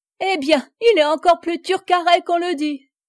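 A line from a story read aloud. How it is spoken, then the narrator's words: Laughing, mocking exclamation. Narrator (French): s'écria la rieuse courtisane à cette réponse digne des naïvetés célèbres échappées au banquier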